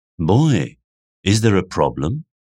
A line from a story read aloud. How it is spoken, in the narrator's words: asked Wolfsa